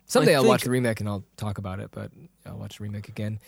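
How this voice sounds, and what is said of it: Raspy voice. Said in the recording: “Do you hear my voice? It's like, yeah, it's raspy.”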